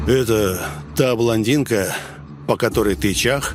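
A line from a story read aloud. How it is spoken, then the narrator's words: Leader's mocking snort. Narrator (Russian): хмыкнул вожак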